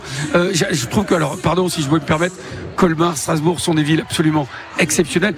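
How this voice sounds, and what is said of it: Bordeaux southwestern French accent. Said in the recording (French): “un petit accent, ça vient d'où exactement? ... De Bordeaux”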